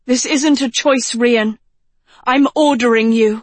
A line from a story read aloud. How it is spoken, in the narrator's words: said Agatha sharply